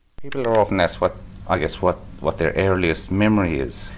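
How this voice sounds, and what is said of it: Irish accent. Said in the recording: “Guess that accent. ... If you guessed Ireland,”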